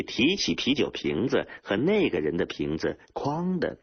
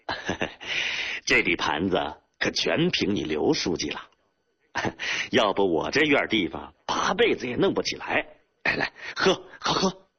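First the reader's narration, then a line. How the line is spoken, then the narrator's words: Laughing. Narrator (Chinese): 书记继续对那个干部笑着说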